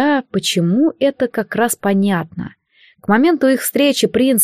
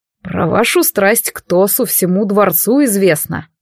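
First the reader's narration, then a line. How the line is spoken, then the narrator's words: Scoffing. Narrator (Russian): фыркнул Алистар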